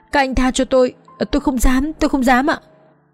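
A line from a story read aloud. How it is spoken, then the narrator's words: Frantic, muffled begging. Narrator (Vietnamese): Anh quản lý chỉ biết dùng tay che mặt, miệng rối rít cầu xin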